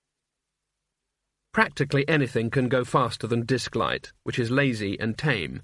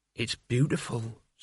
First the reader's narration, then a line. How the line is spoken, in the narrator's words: said Mort softly